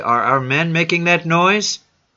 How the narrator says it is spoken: called Susi

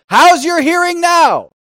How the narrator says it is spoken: shouted above the choir

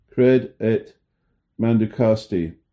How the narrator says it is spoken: Clarke exclaimed with the Father of the Church

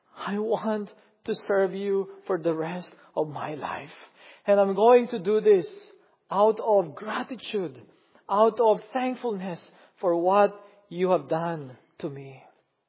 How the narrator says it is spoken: pleaded

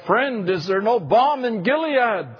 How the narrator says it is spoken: a fellow pastor cried out

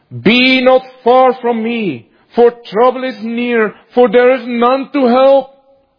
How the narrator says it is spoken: he has cried

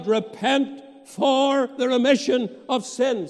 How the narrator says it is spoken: Peter then cried

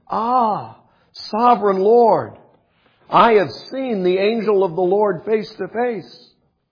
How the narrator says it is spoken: he exclaimed

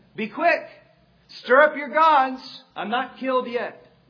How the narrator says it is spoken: Peyton began to shout back at them

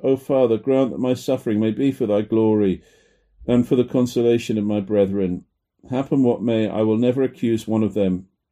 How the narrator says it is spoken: He groaned heavily and cried to God

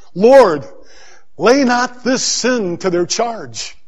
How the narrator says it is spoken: he cried with a loud voice

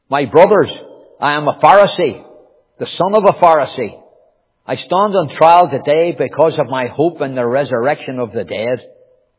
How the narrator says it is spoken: Paul, knowing that some of them were Sadducees and the others Pharisees, called out in the Sanhedrin

